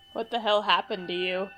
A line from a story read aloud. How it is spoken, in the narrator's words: She laughs